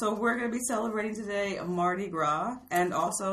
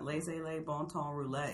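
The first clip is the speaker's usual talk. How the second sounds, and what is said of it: Put-on New Orleans accent. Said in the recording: “With somewhat of a New Orleans accent.”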